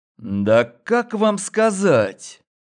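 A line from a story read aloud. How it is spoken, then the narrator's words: Drawn out. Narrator (Russian): Протянул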